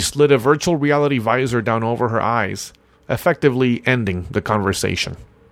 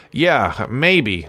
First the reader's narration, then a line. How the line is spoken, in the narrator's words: I said